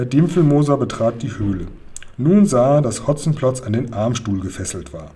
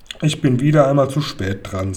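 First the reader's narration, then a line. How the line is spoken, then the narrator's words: Sighed. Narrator (German): seufzte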